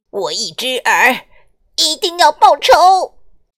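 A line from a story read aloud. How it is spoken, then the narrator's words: Furious shouting. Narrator (Chinese): 一只耳气得 跳着脚叫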